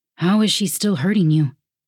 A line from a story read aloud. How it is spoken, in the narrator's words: Lukai asked